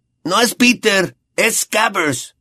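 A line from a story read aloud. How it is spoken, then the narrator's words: Shouting. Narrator (Spanish): gritó Ron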